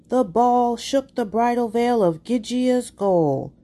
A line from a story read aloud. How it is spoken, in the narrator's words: The announcers would yell